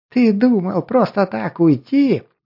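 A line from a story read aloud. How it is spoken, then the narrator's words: Laughing small troll. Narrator (Russian): смеялся оставшийся мелкий тролль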